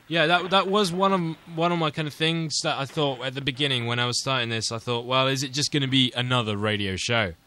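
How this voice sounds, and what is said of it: English accent. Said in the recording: “Aside from the English accent”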